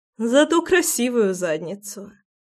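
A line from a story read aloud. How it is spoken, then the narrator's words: Laughing chuckle. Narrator (Russian): хохотнула Руслана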